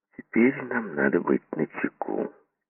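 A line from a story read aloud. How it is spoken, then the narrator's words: Quiet. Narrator (Russian): тихо проговорил Сомс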